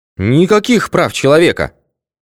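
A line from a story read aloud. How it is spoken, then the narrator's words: Loud angry cursing. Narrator (Russian): заругался так громко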